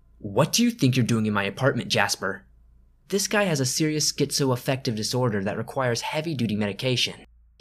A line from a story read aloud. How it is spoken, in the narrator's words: I snapped to him